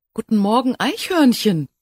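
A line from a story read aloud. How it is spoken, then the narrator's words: Fairy's joyful call. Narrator (German): rief ihm die Waldfee freudig entgegen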